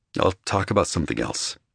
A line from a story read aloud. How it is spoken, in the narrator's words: murmured finally